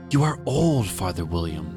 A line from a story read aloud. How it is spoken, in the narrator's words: the young man cried